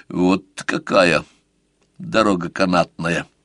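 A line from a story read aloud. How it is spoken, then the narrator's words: Muttered. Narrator (Russian): пробормотал сварог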